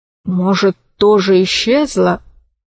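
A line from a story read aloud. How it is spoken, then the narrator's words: Uncertain question. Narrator (Russian): неуверенно спросил Диссипон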